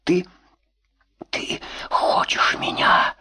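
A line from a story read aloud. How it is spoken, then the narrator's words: Whispered question. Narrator (Russian): шепотом спросила Маша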